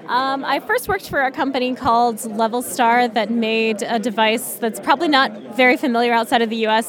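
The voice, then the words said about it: American accent. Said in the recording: “In the US, as people will obviously be able to tell from your accent.”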